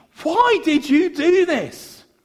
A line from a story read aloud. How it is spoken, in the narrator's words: Again, he yelled over the bridge